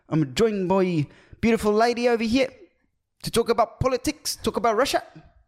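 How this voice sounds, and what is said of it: Put-on New Zealand accent. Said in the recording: “New Zealand accent, somewhat... Your New Zealand accent stresses me out... It sounds like someone's getting tasered. They're trying to talk through getting tasered.”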